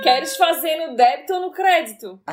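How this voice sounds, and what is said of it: Put-on Florianópolis Manezinho accent. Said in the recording (Portuguese): “Caímos no buraco do sotaque aqui do Manezinho, Santa Catarina.”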